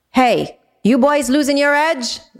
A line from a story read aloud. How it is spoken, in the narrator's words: Zora shouted down, teasing, but with a cutting tone